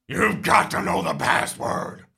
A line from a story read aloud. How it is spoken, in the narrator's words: growls